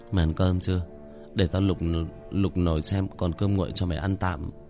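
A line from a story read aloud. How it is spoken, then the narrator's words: Drowsy mumbled question. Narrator (Vietnamese): Mắt tôi nhắm nghiền, miệng lẩm bẩm hỏi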